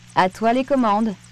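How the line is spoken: Plain. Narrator (French): dit Sam

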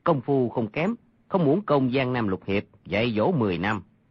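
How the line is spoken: Lowered voice. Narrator (Vietnamese): y hạ giọng mà nói

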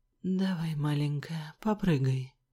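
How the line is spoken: Hoarse. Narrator (Russian): хрипло сказал он

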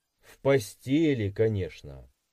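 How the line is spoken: Snorting grunt. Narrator (Russian): хмыкнул

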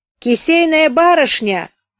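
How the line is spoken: Shouting from another room. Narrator (Russian): кричал из своей комнаты Боря

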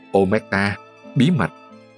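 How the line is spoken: Mocking whisper. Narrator (Vietnamese): thì thầm giễu cợt

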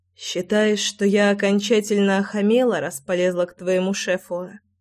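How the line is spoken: Hoarse voice. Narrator (Russian): Голос звучал сипло

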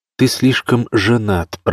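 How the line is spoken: Nasty giggle. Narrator (Russian): противно хихикнула женщина

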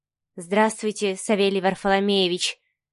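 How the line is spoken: Quiet, embarrassed answer. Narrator (Russian): тихо ответила Маша, не зная, куда деть руки, глаза, всю себя

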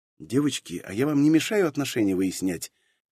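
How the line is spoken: Stunned interjection. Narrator (Russian): встрял я в их перепалку, чувствую себя, мягко говоря, охреневшим

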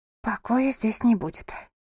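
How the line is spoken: Whisper. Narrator (Russian): прошептала девушка

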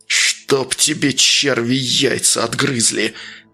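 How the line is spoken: Growled. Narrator (Russian): Зарычал он

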